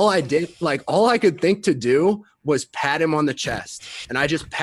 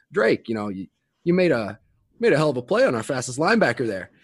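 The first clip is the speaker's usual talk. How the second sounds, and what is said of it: Imitation of Coach Ferentz's accent. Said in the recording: “Coach Ferentz in you know, I can't do the accent as well as everybody else.”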